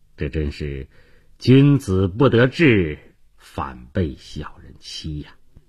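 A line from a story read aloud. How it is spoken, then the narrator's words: Sighing inner thought. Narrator (Chinese): 他叹息了一声，心里想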